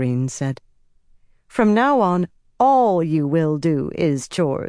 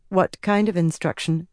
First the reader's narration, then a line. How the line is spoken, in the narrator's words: she said, keeping her voice even